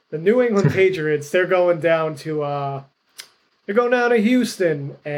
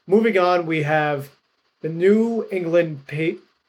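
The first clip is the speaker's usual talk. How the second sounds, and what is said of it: Awful exaggerated put-on accent. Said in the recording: “I don't know why I said it like that ... that was an awful accent ... that was an accent ... that was very, very cringy”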